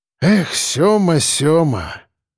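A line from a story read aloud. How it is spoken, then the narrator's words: Sigh. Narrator (Russian): вздохнул Черноусов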